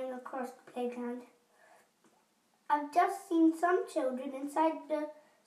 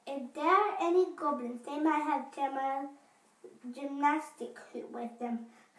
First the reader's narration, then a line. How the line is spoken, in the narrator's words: Kirsty said excitedly